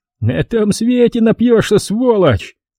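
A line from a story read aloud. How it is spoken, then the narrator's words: Nasty male cackling. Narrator (Russian): Мерзко хохотал он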